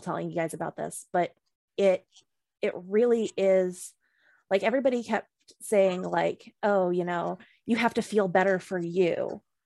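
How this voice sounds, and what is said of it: Emotional voice. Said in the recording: “I'm getting a little emotional”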